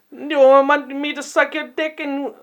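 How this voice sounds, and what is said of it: Put-on Indian accent. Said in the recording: “What the fuck is that accent? ... I'm going Indian.”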